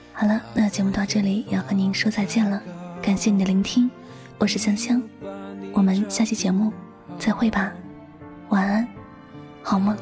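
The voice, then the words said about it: Soft, quiet voice with sore throat. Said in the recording (Chinese): “因为感冒了。所以说嗓子不舒服，只能小声的跟大家来分享心情故事”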